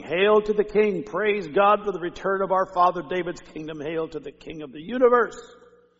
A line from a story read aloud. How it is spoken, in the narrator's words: all of them shouting